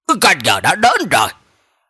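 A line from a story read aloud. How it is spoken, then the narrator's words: Deep, commanding shout. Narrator (Vietnamese): quan viên không giận tự uy trầm giọng quát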